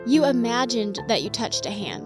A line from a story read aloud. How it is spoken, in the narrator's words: I said